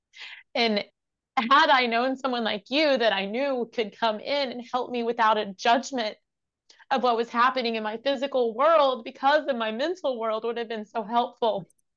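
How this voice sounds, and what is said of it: Emotional, voice close to tears. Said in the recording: “I'm sorry, I'm getting emotional”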